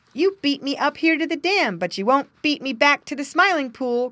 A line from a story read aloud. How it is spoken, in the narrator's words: cried